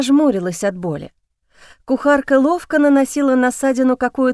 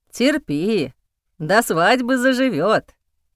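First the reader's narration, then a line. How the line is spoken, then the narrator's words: Woman grumbling. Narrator (Russian): бурчала женщина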